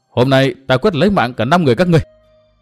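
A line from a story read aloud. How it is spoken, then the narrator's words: Loud shout. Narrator (Vietnamese): Tư Mã Minh hét to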